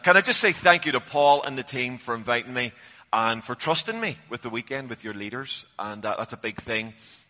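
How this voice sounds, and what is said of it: Northern Irish Belfast accent. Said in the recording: “he was trying to work out my accent ... it sounds like you're from either from Southern Ireland or Cornwall ... So actually I'm from Belfast”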